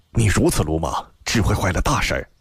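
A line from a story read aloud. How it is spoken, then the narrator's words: Low voice. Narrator (Chinese): 低声道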